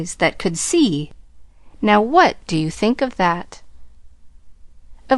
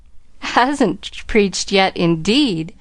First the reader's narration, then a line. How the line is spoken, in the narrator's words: chuckled Della Wetherby to herself